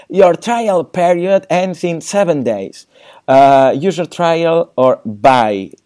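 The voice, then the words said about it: Put-on exaggerated accent reading English. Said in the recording (Spanish): “con acento carrascal”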